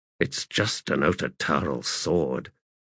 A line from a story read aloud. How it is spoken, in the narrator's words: he muttered, baffled at the Warthog's obvious alarm, unnerved by Setok's sudden attention